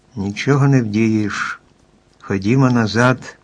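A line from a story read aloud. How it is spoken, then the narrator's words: Sighing. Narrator (Ukrainian): зітхнувши, мовив Чарлі Блек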